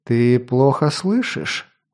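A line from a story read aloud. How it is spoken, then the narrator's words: Sighing. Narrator (Russian): вздохнул Корен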